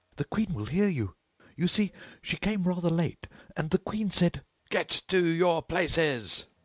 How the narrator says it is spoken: shouted the Queen in a voice of thunder

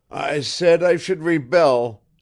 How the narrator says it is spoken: shouted hoarsely

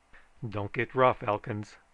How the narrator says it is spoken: warned the sheriff nervously

